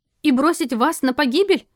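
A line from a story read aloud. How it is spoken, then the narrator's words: Indignant shout after someone. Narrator (Russian): негодуя крикнула ему вдогонку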